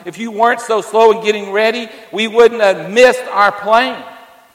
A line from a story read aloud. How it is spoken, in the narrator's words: The husband was so angry, he yelled